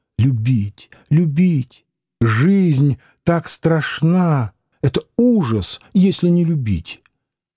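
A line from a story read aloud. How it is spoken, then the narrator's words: Muffled sobbing, hot whisper. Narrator (Russian): Нехаева, лежа рядом с ним, приглушенно рыдала, говоря жарким шепотом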